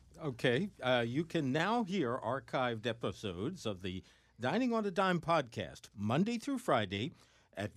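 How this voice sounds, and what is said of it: Polished radio announcer voice. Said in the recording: “This radio voice is a million times. I could never pull that off. ... For those of you that don't speak dignified”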